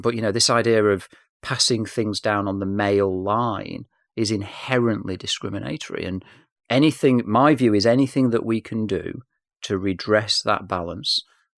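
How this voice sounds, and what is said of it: English accent. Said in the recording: “I'm English, as you can tell from my accent.”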